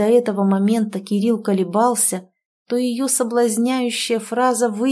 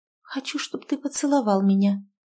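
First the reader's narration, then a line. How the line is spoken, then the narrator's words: Quiet command. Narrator (Russian): Она тихо велела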